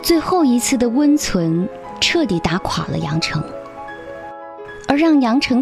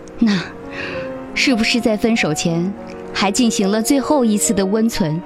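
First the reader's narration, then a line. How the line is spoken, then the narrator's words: Cold sneer. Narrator (Chinese): 杨成冷笑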